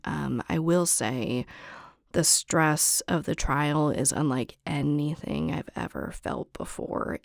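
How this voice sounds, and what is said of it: Hoarse, raspy voice. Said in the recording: “Janis Joplin vibes ... I'm a little hoarse, I'm a little raspy, but that's just how my voice is”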